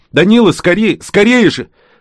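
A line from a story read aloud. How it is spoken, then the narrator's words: Shout. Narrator (Russian): Маугли крикнул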